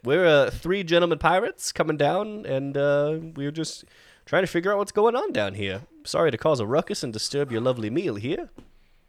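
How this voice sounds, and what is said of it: Put-on Southern gentleman accent. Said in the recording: “you hear my accent. ... I'm clearly a southern gentleman.”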